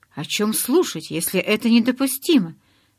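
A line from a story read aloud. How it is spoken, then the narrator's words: Exclaimed. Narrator (Russian): воскликнула Таня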